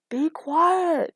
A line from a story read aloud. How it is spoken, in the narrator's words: he yelled back